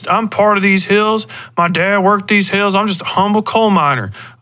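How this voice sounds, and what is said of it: Put-on rural coal-country accent. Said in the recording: “why the fuck is he using that accent? ... that dude doesn't talk like that”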